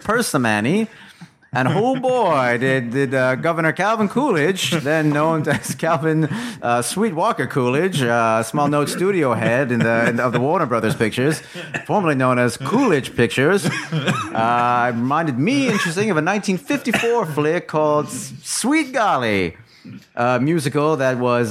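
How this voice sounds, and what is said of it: Old-time newsreel announcer voice. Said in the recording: “your impression of Elliot is like an old-time newsreel announcer”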